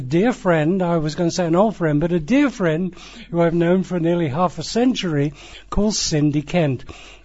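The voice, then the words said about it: English West Midlands accent. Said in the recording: “our accents are reasonably similar to Ozzy Osbourne's”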